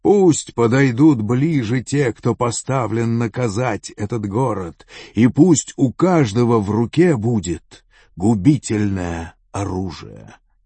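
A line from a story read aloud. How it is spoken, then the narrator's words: Loud call. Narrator (Russian): он позвал громким голосом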